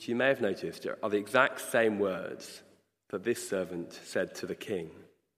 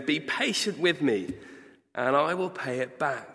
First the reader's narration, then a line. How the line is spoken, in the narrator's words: his fellow servant fell to his knees and begged him